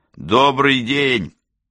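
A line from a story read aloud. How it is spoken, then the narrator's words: Loud cheerful proclamation. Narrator (Russian): Воятель громко и весело провозгласил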